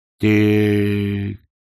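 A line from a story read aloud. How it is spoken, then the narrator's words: Slow. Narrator (Russian): медленно сказал Кувыркс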